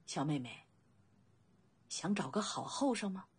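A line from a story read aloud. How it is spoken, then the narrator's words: Long sigh. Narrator (Chinese): 未央长长的叹息一声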